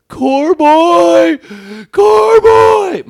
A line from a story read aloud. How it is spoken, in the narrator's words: my buddy getting hogtied by the police on the sidewalk, and he's screaming